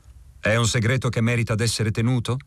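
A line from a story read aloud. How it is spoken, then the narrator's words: Less harsh question. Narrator (Italian): domandai in tono meno aspro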